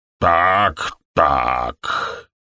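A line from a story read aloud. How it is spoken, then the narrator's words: Quiet grumbling voice. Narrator (Russian): раздался тихий, бурчащий голос доктора Фелла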